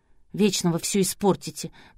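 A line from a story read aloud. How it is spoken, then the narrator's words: Grumbling. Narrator (Russian): проворчала сестричка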